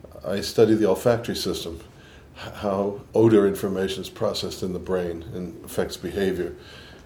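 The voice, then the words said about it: New York accent, slight Boston. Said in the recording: “I think I have more New York in my accent than Boston, but there's probably a little bit of both”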